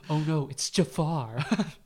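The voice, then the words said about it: Imitates another person's voice. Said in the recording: “that's not a very good RuPaul impression. I'm working on it, though.”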